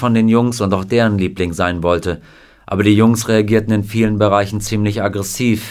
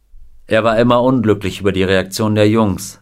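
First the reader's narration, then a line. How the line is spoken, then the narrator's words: Plain. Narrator (German): sagte Bob Neal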